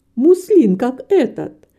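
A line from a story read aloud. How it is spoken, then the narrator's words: Indignant exclamation. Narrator (Russian): воскликнула маленькая портниха с выражением негодования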